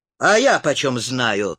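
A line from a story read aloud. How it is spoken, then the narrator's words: Wry snort. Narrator (Russian): хмыкнул Роган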